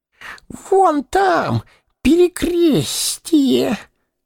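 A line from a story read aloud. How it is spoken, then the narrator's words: Throaty wheeze. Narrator (Russian): сипел горлом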